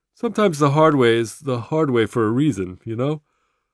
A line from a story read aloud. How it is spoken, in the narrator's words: Jesus says, yawning